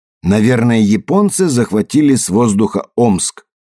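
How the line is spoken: Loud. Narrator (Russian): громко сказал Камберленд

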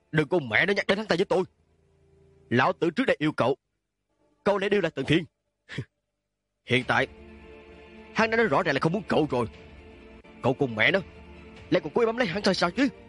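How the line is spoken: Cold interrupting question. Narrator (Vietnamese): Lạc Hương lạnh lùng ngắt lời của Lạc Hách, hỏi lại một lần nữa

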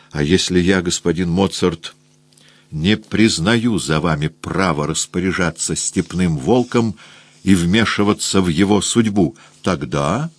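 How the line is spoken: Quiet, through clenched teeth. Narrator (Russian): Я тихо сквозь сжатые зубы спросил

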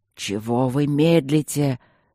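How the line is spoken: Furious growl. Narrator (Russian): зарычал он взбешенно

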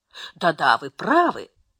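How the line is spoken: Absent-minded thoughtful agreement. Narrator (Russian): согласилась миссис Флетчер, то ли рассеянно, то ли задумчиво

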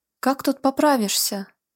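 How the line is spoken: Whiny, grumbling tone. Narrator (Russian): жалобно-сварливым тоном произнес Гвидо, когда по вечерам в Карене такой холод

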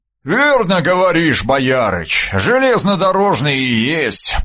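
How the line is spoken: Booming drone. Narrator (Russian): прогудел он

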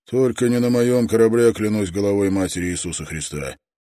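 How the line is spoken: Cheerful snort, tiny freak. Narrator (Russian): Крошечный уродец весело хмыкнул

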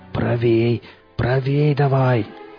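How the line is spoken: Hoarse forester. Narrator (Russian): прохрипел лесник

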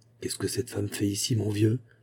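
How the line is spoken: Low-voiced question. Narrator (French): demanda-t-il à voix basse

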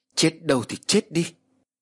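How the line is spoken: Loud shout. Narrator (Vietnamese): hét lớn

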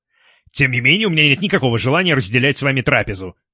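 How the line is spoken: Sharp reply. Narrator (Russian): резко ответил Стас

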